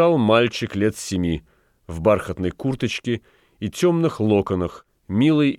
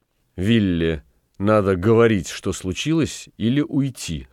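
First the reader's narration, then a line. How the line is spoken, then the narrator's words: Plain. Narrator (Russian): сказал Сногден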